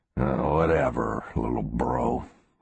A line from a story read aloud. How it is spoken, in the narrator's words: Garrett grumbled